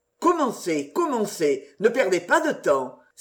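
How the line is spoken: Ardent exclamation. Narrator (French): s'écria l'ardent Sir Patrick

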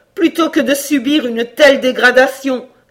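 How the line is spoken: Horrified cry. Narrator (French): s'écria Cora, saisie d'horreur

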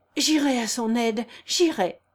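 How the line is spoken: Exclaimed, moved to tears. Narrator (French): s'écria Émile, ému jusqu'aux larmes

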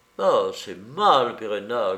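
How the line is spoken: Grumbling man. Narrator (French): grommela le comte d'Astrignac

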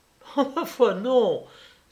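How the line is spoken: Exclaimed, laughing loudly. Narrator (French): s'écria Germaine en riant aux éclats

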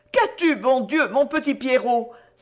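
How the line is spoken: Exclaimed. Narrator (French): s'écria Georgette

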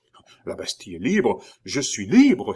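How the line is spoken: Exclamation. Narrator (French): s'écria le docteur

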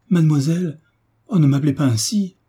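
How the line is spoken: Exclaimed. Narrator (French): s'écria Mademoiselle de Beauménil

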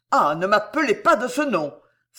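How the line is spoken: Muffled exclamation. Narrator (French): s'écria-t-il sourdement

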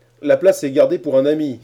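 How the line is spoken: Exclaimed. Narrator (French): s'écria Cornelius Hornsby

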